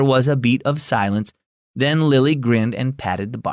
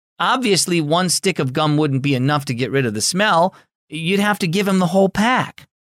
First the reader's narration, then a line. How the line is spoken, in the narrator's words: Harper said desperately